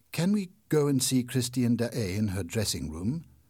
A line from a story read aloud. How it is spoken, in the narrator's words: asked Raoul